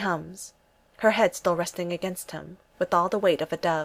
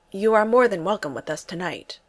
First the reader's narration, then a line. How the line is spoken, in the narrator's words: says Thor